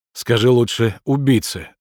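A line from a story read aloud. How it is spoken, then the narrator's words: Moaning. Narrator (Russian): застонал Семен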